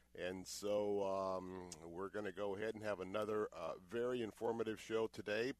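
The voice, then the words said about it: Unwell, impaired-sounding voice. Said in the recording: “apologize for my voice because this allergy situation that has been hanging on with me has not been letting up”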